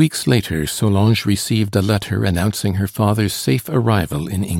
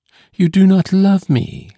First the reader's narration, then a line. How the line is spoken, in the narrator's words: she exclaimed